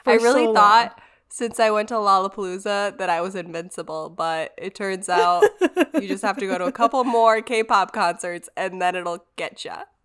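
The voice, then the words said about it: Cough-altered, unusual sounding voice. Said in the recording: “you're basically just going to sound weird ... So sorry that I'm coughing and my voice sounds like this ... I have this awful cough and it makes my voice sound different”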